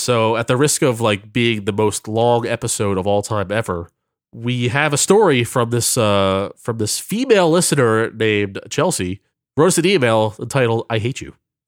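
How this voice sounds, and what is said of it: Tired voice. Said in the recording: “My voice is tired.”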